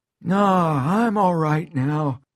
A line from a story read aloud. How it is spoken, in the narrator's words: says, grinning and wheezing